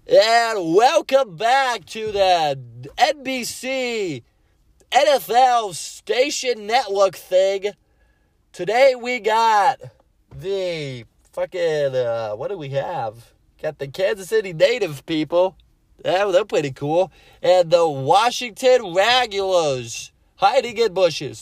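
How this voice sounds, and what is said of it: Mock sports announcer voice. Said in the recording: “take away your announcer voice.”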